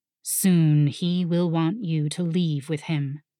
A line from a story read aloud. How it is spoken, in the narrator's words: the dragon rumbled